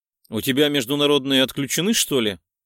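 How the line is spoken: Grumbling. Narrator (Russian): проворчал

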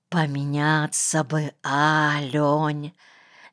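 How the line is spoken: Dreamy whisper. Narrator (Russian): мечтательно шептал он

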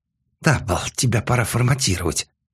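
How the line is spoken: Angry hiss. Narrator (Russian): зло прошипело Ким

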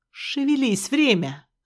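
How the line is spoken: Growl. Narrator (Russian): рыкнула она

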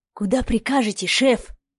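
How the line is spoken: Cautious loud whisper. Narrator (Russian): Осторожно, громким шепотом поинтересовался Вадим

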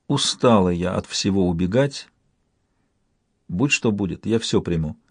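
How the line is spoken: Quiet confession. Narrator (Russian): Кифрия тихо созналась

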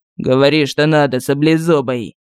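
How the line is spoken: Growling. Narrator (Russian): Гад зарычал

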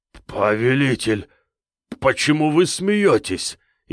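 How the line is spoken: Frightened, cowering. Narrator (Russian): испуганно сжался Терех

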